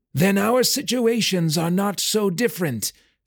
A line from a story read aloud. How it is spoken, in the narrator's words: Felk shouted over his shoulder